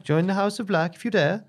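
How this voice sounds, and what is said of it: Failed Dutch accent, sounds Swedish. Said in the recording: “It's definitely Swedish, isn't it? It's not... I can't do Dutch. I really can't.”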